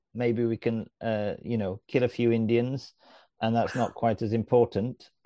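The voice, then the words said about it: Sarcastic delivery. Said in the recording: “I am being sarcastic”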